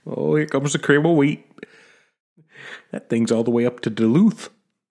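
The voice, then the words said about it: Put-on Minnesota accent. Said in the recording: “that Minnesota accent”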